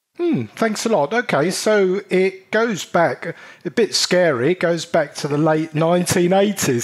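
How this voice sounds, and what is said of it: British accent. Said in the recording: “your British accent ... I love it. I love it. Other side of the pond.”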